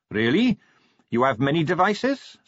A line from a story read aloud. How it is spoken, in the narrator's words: said Carrot